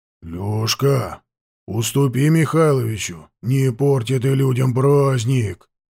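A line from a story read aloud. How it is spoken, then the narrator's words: Completely serious. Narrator (Russian): совершенно серьезным тоном наказывал сыну Петр Григорьевич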